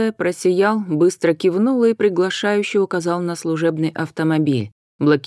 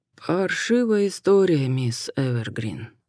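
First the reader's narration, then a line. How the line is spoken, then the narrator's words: Sighing. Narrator (Russian): вздохнул смуглый Хосе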